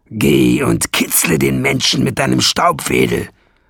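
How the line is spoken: Growling. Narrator (German): knurrte Nesselbrand

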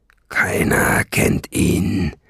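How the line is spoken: Male growl. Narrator (German): knurrte er

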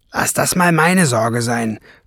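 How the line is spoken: Growl. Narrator (German): knurrte Schwefelfell

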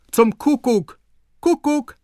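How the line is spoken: Distant call from stairs. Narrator (German): Von der Treppe her rief es

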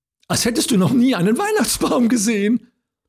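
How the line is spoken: Little girl giggling. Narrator (German): kicherte die Kleine

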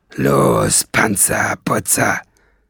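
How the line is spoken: Growling. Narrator (German): knurrte Nesselbrand

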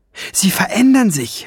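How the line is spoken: Shouting. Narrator (German): schrie Gineva

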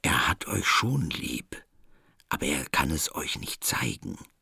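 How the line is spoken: Throat-clearing, then whisper. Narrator (German): Adrian räusperte sich und flüsterte

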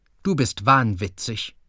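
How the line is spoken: Plain. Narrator (German): sagte er

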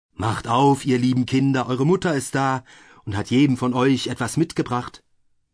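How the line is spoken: Calling out. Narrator (German): rief

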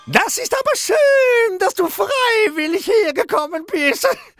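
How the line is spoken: Witch calling out. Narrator (German): rief die Hexe Verstexe

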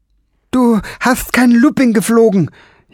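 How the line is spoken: Whining lament. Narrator (German): jammerte

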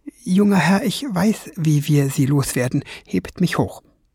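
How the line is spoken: Whisper. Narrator (German): flüsterte Fliegenbein

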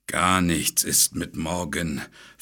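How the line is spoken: Dragon hissing. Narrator (German): fauchte der Drache

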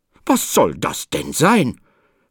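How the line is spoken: Stern question. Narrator (German): fragte Frau Anna streng

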